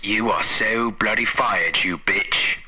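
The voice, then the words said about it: American putting on an English accent. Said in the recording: “Was that like an American doing an English accent?”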